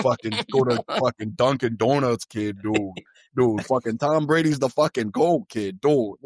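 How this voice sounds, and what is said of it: Mock Boston accent. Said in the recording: “everyone has that grody accent ... that accent ... the Boston accent”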